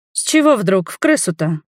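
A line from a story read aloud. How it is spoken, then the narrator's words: Grumbled. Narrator (Russian): пробурчала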